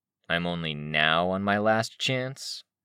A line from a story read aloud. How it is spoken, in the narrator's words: he asked, almost sneering